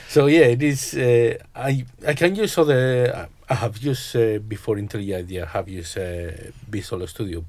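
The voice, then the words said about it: Slight accent. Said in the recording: “I thought I detected a slight accent. ... Yeah, I heard that from a mile off.”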